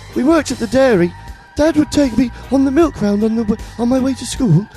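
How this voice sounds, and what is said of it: Impression of another woman. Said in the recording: “I'm going to have to pretend to do an impression of Rachel now”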